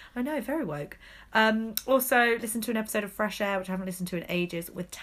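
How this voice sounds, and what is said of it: Usual voice. Nothing is said of it.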